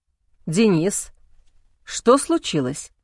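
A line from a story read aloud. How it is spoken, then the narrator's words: Plain. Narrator (Russian): спросил он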